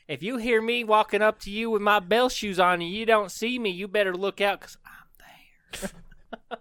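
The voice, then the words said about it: Southern debonair character voice. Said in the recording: “with a southern gay debonair accent.”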